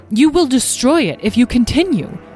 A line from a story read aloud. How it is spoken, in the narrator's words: Beatrice said sharply